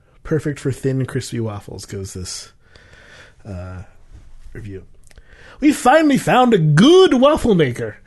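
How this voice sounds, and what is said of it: Poor put-on Irish accent. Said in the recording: “in an Irish accent, in my terrible Irish accent”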